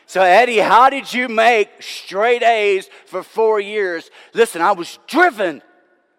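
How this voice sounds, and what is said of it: Yelling, loud preaching voice. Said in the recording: “I'm yelling now, right? It's getting charismatic.”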